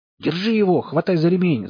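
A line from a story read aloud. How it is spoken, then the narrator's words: Shouting. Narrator (Russian): закричал Лом Зайцу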